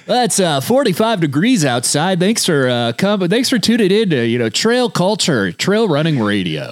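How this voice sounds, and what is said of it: Radio announcer voice. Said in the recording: “Do your radio voice thing for the listeners.”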